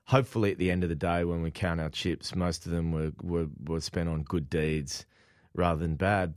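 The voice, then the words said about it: Strong Australian accent. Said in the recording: “your native Australian accent ... Strong Australian accent.”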